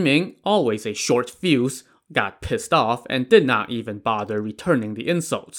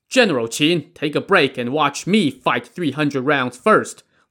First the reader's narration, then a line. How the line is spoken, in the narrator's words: Lin Chong shouted